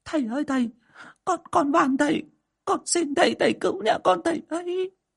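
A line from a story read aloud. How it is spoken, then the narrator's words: Woman crying, pleading. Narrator (Vietnamese): bà Hậu khóc lóc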